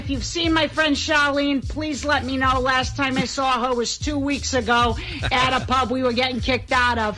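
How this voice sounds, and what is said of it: Exaggerated Boston accent. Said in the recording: “Boston just got named the second sexiest accent in all of America... So's my accent”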